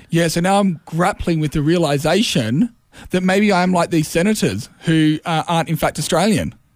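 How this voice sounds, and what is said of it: New Zealand accent. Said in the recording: “your accent says to me you're definitely New Zealand ... You're a Kiwi kid, mate.”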